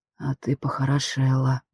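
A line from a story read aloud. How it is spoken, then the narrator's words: Slightly hoarse close breath. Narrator (Russian): чуть хрипло выдохнул совсем рядом с моей шеей Удугов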